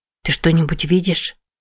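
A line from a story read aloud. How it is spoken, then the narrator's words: Whisper close to ear. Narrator (Russian): прошептала Джен, приблизив губы к уху Мэтти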